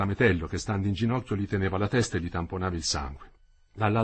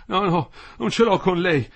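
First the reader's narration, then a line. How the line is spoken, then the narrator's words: Panting. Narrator (Italian): ansimava Quinto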